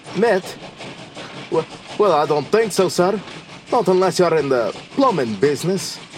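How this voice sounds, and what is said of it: Put-on accent. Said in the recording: “The words, the accent, just seemed to come by themselves.”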